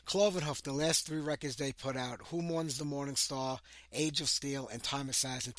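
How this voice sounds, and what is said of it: Hoarse, rough voice. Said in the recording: “I'm all hoarse today. I'm trying to get rid of this, I'm sucking on some lozenges here.”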